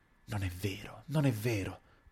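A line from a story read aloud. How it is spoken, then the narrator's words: Speaking under breath. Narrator (Italian): disse Silla sottovoce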